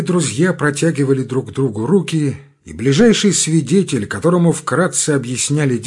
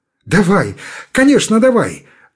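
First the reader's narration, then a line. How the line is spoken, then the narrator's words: Joyful agreement. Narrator (Russian): радостно соглашался новичок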